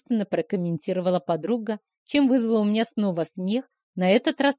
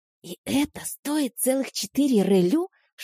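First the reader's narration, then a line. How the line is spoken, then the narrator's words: Whispered question. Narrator (Russian): шепотом спросила я у подруги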